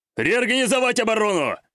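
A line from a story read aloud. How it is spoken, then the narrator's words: Roared, drowning out everything. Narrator (Russian): проревел он, перекрыв разом все прочие звуки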